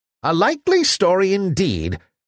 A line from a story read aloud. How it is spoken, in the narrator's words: cried Javotte, tossing her head disdainfully